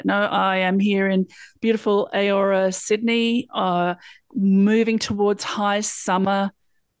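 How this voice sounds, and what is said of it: Slight Australian accent. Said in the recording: “You may have noticed a slight accent depending on where you're from, but it's close.”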